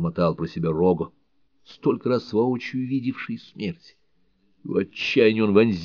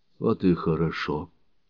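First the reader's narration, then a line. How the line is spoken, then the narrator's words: Quiet. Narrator (Russian): произнесла Бель Роузен, тихо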